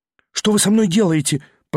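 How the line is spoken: Faltering babble. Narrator (Russian): пролепетал он

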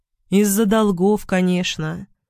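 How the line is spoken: Flat colorless voice. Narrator (Russian): произнесла она бесцветным голосом

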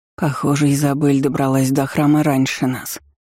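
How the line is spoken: Whisper. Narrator (Russian): прошептала Гретта

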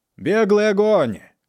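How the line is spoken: Shouted. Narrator (Russian): крикнул Сорвиголова

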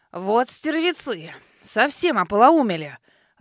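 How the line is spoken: Growling old man. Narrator (Russian): рыкнул дед

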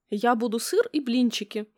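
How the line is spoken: Exclaimed. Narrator (Russian): воскликнула Ксюша

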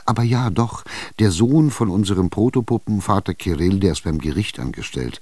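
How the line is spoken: Plain. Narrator (German): sagte die Korobotschka

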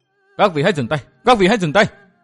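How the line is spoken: Loud cry, stamping. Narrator (Vietnamese): Tư Mã Tiêu Dư dậm chân lớn tiếng hô

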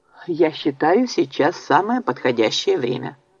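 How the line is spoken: Calm speech. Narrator (Russian): спокойно сказал Оливер

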